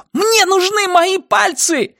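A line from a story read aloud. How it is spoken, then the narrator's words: Woman shouting. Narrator (Russian): закричала она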